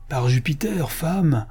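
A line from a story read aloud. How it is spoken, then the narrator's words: Moved exclamation. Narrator (French): s'écria le paysan ému, sous sa dure écorce, par les souvenirs que lui rappelait Rustica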